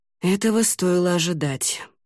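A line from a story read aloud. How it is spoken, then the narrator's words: Sighed. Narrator (Russian): вздохнул Ламинар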